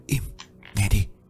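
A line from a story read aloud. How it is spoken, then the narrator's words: Barely audible whisper. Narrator (Vietnamese): Nó nói khẽ đến nỗi Tạo phải đoán ra chứ không hề nghe rõ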